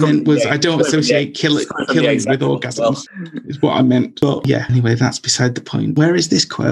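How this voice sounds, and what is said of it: Usual voice. Nothing is said of it.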